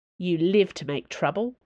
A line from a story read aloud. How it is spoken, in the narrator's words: Treville grumbled